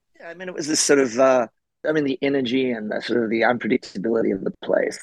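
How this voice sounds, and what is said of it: Australian accent. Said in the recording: “We can tell, obviously, from your accent, you're originally from Australia.”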